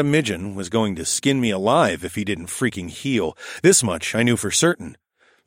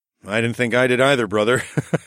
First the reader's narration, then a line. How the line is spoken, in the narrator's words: I laughed